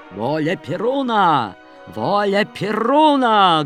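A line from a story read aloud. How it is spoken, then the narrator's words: Loud old man's exclamation. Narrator (Russian): громко воскликнул старик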